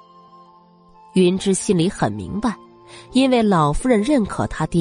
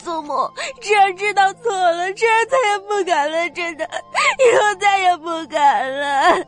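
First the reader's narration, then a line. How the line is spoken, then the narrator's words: Crying, pleading. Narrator (Chinese): 他双腿一软，哭着哀求道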